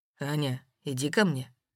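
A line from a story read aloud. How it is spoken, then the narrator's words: Quiet. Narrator (Russian): тихо сказал Воронцов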